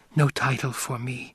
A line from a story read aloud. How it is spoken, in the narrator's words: Chani whispered